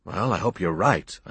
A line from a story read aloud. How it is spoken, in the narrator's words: I muttered